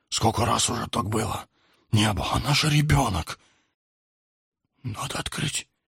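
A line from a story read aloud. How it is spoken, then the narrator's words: Young man whispering. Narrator (Russian): прошептал старший из парней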